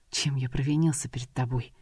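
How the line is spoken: Barely audible. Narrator (Russian): еле слышно произнес Эмрей

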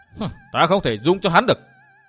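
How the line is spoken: Mock scolding. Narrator (Vietnamese): Dương Viễn nạt đùa

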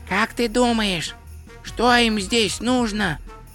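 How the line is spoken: Whisper. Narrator (Russian): прошептал Два Цветок

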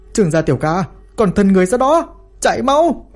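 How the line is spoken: Worried, furious shout. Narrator (Vietnamese): Đang lo lắng cho nam nhân, Lý Mặt Dỗ phẫn nộ hét lên

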